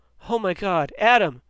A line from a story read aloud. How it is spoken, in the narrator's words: he shouted